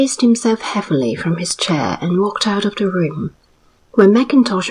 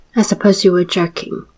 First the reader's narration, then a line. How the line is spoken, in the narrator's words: said Mackintosh icily